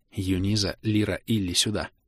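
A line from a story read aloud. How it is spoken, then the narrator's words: Barely audible call. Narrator (Russian): позвала Элинса так тихо, что мог уловить только острый слух дриад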